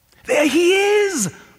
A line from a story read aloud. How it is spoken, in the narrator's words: a boy would yell at the river